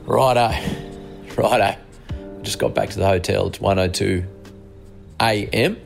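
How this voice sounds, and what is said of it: Tired, unwell-sounding voice. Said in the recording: “you can probably hear from my voice. I think the travel and the lack of sleep's got to me. Started to feel pretty crook”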